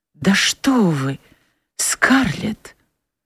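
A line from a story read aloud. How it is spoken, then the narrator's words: Very quiet, trembling voice. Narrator (Russian): Он произнес это так тихо, но таким дрогнувшим голосом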